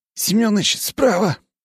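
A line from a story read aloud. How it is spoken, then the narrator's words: Hoarse young voice. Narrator (Russian): прохрипел его юный коллега Севка Быстрикин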